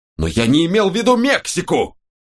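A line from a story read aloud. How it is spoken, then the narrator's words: Nearly shouting. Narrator (Russian): Паунс уже почти кричал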